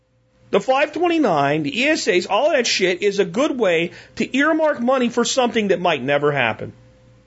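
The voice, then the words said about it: Angry, ranting delivery. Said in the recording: “You know why I sound so angry?”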